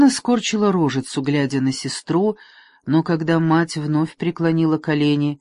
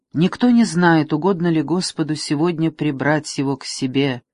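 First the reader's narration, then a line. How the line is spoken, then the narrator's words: Calm queen. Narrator (Russian): спокойно сказала королева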